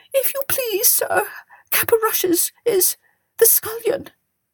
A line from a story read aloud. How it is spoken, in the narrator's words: whimpered the cook